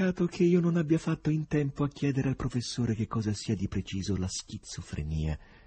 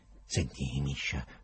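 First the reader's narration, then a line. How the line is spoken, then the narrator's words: Whispered. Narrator (Italian): sussurrò il poeta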